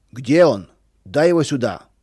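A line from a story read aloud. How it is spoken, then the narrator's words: Shout. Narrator (Russian): кричал Федор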